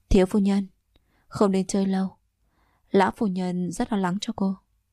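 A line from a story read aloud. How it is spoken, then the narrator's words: Smiling. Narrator (Vietnamese): Trợ lý của Doãn lão phu nhân mỉm cười nói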